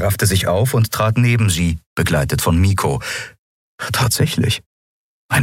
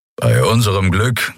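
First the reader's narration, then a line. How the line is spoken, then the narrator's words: Growl from behind. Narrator (German): knurrte Kero hinter ihnen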